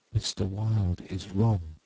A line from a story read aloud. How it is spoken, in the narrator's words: murmured Constance